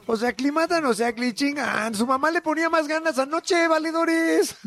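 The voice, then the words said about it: Mexico City chilango accent. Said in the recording (Spanish): “Es que todo es más divertido en acento chilango.”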